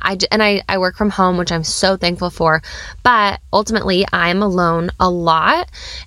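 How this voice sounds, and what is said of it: Sick-sounding voice. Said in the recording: “as you can probably hear in my voice, yes, I'm still coming into the new year feeling a little bit sick”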